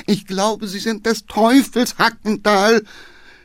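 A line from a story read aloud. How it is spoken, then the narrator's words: Groaning from behind. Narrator (German): stöhnte der Geheimrat hinten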